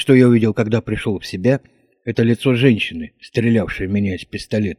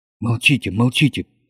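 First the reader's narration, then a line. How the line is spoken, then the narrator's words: Commanding, tender whisper. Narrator (Russian): прошептала она повелительно и, пожалуй, даже ласково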